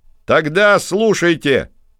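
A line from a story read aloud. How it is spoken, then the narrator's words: Shout. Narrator (Russian): крикнул Финист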